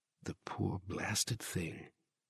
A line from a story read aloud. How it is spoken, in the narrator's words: he said softly